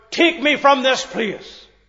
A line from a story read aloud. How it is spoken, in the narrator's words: Boyle, in his dilemma, he cried out